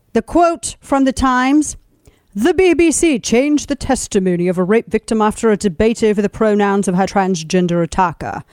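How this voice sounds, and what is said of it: Put-on British accent. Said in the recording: “You have to say it with a British accent because it's a very serious British story.”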